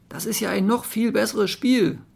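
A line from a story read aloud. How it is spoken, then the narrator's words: Calling out. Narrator (German): rief glänzende Forelle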